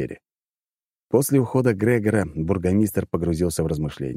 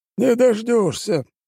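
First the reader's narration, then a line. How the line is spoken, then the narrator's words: Grumbling. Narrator (Russian): проворчал бургомистр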